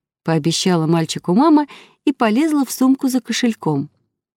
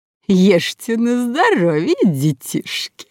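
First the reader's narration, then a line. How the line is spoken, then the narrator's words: Nasty giggling. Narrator (Russian): Противно хихикнули сестры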